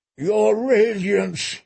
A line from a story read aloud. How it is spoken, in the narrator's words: he moaned, as he fell to the marble at her feet